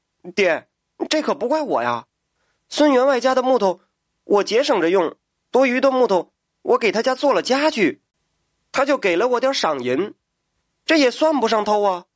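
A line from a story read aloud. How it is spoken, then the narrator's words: Hurried protest. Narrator (Chinese): 这小木匠急忙辩白道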